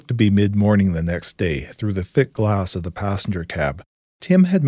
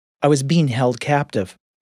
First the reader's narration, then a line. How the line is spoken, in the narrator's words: Maya indignantly corrected